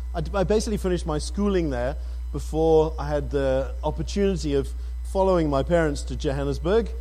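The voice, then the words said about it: British accent, slightly South African. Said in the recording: “My accent is not as South African as Kenny's ... My accent comes from the fact that I was born in the UK.”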